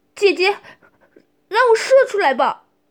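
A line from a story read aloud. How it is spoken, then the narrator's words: Desperate cry. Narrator (Chinese): 小白队长现在已经被欲望驱使无法自拔，便喊出了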